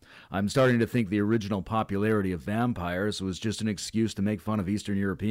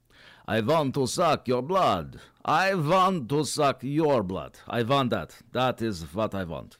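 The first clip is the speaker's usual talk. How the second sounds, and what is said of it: Exaggerated fake vampire accent. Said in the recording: “I love that fake accent ... What kind of preposterous accent is that?”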